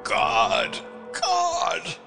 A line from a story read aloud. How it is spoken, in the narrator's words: groaned, and the clenched fists were raised again to the infinite despair with which his throat vibrated